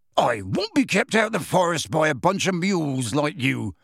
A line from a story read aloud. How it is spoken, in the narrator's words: said Hagrid loudly